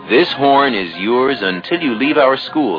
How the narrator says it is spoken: his teacher said

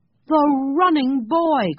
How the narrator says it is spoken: cried the man

